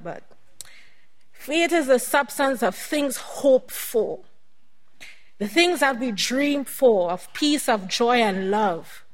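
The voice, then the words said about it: Choked-up, emotional voice. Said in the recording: “kind of gets me a little choked up”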